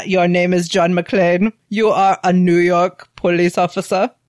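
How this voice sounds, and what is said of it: Bad put-on German accent. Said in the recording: “I love my German accent. It's very bad.”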